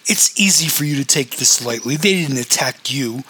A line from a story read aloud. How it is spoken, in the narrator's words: whined Roxbury